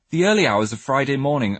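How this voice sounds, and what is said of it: Put-on posh accent. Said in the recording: “why am I speaking so posh? Your mum doesn't speak like that.”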